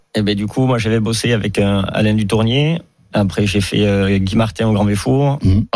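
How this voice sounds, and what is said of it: Slight southwestern French accent. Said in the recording (French): “vous avez un petit accent qui révèle peut-être une origine du sud ... de la Corrèze, les portes du sud-ouest”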